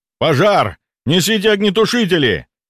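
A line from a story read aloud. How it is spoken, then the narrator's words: Guard yelling. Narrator (Russian): заорал охранник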